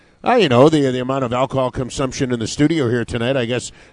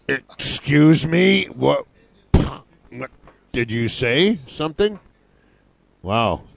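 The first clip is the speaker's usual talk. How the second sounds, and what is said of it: Drunk-sounding slurred voice. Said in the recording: “the guy who sounds the most drunk is ... That was my best Foster Brooks impersonation.”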